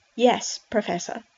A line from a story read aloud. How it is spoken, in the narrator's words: Charlie replied